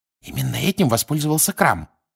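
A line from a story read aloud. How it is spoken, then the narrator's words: Whisper. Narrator (Russian): прошептала Гермиона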